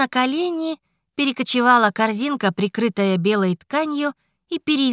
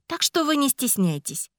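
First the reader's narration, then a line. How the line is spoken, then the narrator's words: Calm remark. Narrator (Russian): спокойно заметила Илара Лонвир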